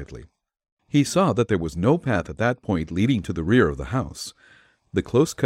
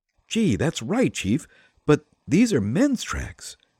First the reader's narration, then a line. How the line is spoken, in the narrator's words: said Patsy, eagerly